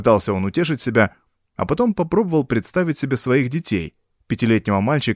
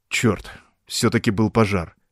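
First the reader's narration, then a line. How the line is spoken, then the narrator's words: Startled mutter. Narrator (Russian): Вздрогнув, пробормотал Джонас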